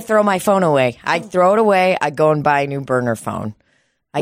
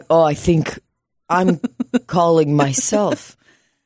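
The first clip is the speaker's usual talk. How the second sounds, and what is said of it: Put-on Russian accent. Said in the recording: “Why did I do a Russian accent?”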